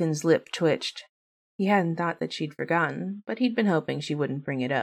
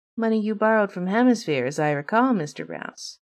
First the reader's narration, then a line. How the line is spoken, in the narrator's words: Lady said, her tone lilting slightly into amusement